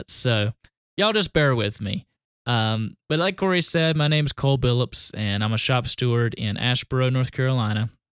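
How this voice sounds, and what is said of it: Southern US country accent. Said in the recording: “when I get tired, as I am, my country accent comes out a little bit”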